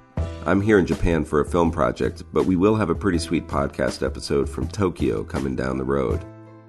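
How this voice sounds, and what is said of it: Congested voice with a cold. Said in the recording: “I'm sick. I've got a cold”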